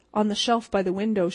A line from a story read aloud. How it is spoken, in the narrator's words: she answered